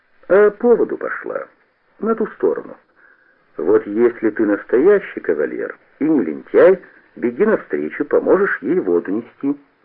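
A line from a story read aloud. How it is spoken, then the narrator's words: Calm. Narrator (Russian): Кушнир спокойно сказал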